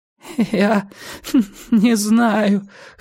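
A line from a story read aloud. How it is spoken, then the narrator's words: Whining. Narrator (Russian): хныкал Нестор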